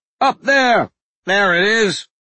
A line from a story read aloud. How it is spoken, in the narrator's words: men shouted